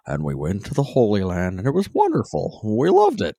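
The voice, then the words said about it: Imitates another person's voice. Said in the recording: “I was just picturing President Hinckley talking for some reason ... That your President Hinckley impression?”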